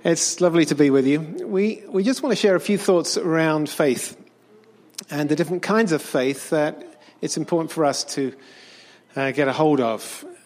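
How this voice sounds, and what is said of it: Speaks with a noticeable accent. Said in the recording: “I hope you can understand my accent.”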